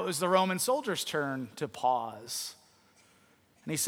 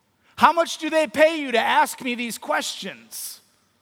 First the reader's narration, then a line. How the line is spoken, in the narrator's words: the rabbi had a moment to collect himself, and he shouted back